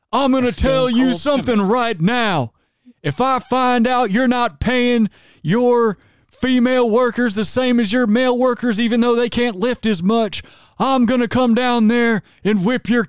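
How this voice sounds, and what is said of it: Stone Cold Steve Austin impression. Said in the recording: “can't you do a Stone Cold voice? ... can you do a Stone Cold Steve Austin voice and then pretend you're a feminist?”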